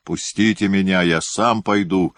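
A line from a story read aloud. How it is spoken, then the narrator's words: Loud angry shout. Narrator (Russian): громко крикнул он, гневно сверкнув глазами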